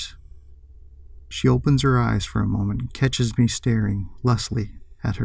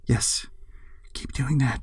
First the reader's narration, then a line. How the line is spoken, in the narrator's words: whispers